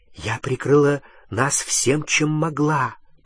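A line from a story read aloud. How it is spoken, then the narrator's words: Whispered reply. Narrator (Russian): прошептала она в ответ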